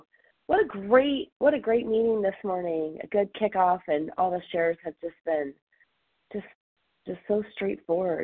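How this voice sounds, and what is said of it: Hoarse, croaky voice. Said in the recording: “recovering from a little cold, so sorry, I sound like a little frog”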